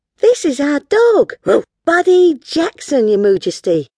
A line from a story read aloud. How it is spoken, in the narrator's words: cried Honey proudly